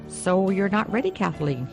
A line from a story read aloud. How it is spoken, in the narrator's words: he said